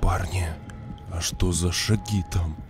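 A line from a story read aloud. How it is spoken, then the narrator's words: Barely audible trembling whisper. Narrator (Russian): Еле слышно, дрожащим голосом прошептал Олежка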